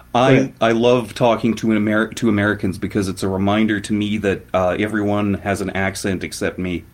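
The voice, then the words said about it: Fargo-like Canadian accent. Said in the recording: “You know the movie Fargo? ... How come your accent sounds like theirs? ... sometimes when you talk, I think Fargo.”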